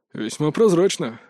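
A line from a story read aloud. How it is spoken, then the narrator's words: Snort. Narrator (Russian): хмыкнул Мокруха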